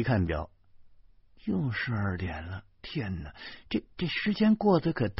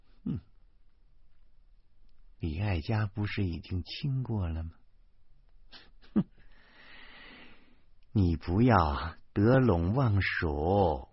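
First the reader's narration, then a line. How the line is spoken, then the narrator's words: Cold sneer. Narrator (Chinese): 老婆冷笑了一声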